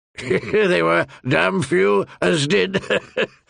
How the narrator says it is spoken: Lord Janus allowed, chuckling

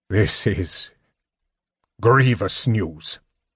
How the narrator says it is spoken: he said sternly

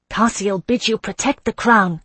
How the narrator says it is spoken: I cried

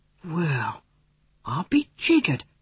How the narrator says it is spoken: he breathed

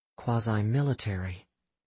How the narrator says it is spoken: Astrid said in a low, discreet voice

